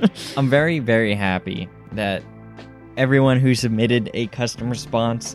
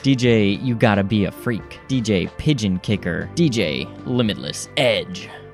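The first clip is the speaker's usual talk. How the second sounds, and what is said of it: DJ-style announcing voice. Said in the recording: “This is my DJ voice. This is how I read DJ names.”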